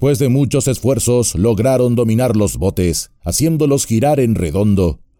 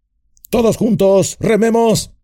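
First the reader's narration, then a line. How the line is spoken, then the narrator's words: Shouted. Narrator (Spanish): gritó Boromir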